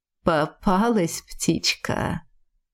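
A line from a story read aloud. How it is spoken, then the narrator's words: Purring. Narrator (Russian): Мурлыкнул Кай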